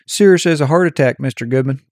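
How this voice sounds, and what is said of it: Imitated Texas accent. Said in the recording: “He had this like Texas accent.”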